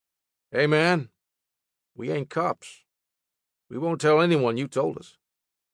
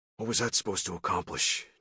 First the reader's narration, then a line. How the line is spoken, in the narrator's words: John whispered